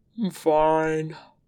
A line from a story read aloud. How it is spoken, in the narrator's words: Wei Ying says, around a yawn